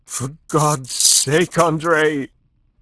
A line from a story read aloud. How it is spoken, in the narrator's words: She panted hoarsely over her shoulder